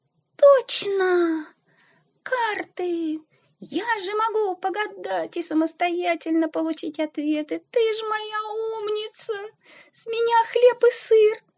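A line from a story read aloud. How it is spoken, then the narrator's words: Joyful squeak. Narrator (Russian): Радостно пискнула Сара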